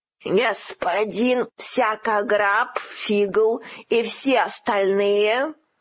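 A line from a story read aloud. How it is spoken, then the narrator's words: Frightening voice. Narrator (Russian): спросила одна из фигур страшным голосом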